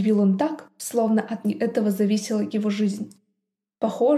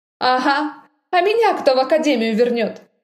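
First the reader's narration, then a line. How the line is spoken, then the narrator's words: Scoffing snort. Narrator (Russian): хмыкнула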